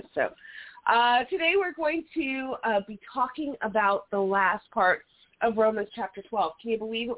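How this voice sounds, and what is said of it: Raspy hoarse voice. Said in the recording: “my raspy sounding throat”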